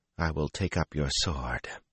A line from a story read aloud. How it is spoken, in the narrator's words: she whispered